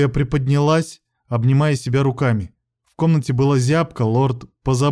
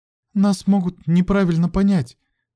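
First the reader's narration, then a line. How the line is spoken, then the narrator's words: Uncertain young woman. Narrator (Russian): неуверенно сказала девушка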